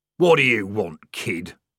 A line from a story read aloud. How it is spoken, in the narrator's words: growled the corporal